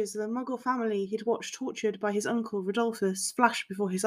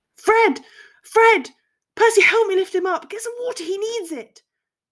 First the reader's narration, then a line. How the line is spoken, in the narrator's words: George Weasley was now shouting from a few feet away from him in his mind